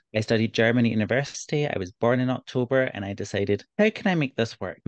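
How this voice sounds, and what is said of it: Scottish Glasgow accent. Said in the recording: “living in Glasgow in Scotland ... my accent does not cloud their interpretation ... I'm fairly easy to understand”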